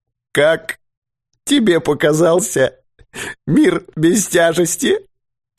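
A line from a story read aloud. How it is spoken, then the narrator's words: Sobbing. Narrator (Russian): всхлипнул Дауги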